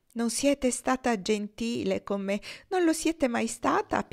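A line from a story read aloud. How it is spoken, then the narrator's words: Whimpered. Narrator (Italian): piagnucolò lui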